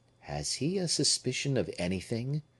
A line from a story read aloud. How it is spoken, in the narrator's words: murmured he